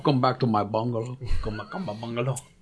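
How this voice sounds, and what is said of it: Put-on accent. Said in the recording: “You just throw a little accent with it ... Straight out of an episode of Narcos.”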